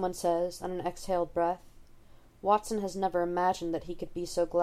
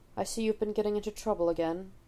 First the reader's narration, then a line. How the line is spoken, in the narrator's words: he says